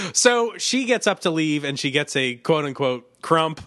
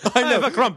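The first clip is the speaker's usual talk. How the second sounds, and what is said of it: Put-on British accent. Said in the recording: “That's her British accent.”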